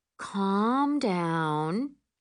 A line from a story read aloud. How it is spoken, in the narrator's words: I say in my most soothing voice